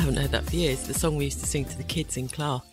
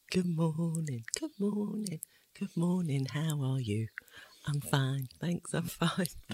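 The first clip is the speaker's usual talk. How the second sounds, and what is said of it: Whispered singing. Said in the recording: “Why are you whispering it?”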